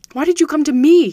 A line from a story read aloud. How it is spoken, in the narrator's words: he cried